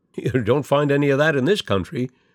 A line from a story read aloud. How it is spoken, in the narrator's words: Walt laughed